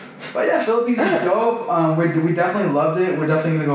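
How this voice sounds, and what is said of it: Usual voice. Nothing is said of it.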